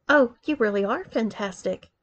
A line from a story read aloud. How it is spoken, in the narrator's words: she gently encouraged